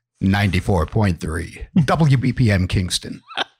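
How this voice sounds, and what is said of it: Radio DJ announcer voice. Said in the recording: “radio voice”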